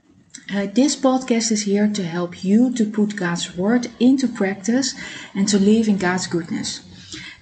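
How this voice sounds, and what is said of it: Non-native accented English. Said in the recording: “I live in Amsterdam. That's why you hear my accent.”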